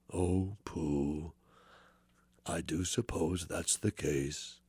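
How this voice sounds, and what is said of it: Eeyore voice, measured and slow. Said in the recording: “your mother's Eeyore ... It was measured and slow.”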